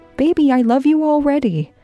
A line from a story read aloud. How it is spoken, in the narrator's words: Jean said, cheerfully, trying to encourage Candace